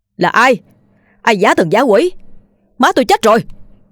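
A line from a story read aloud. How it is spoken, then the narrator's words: Yelling. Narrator (Vietnamese): Hắn gào lên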